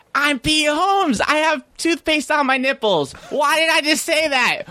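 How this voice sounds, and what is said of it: Loud imitation of another person. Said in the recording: “remember my impression of you? ... I don't have the voice down”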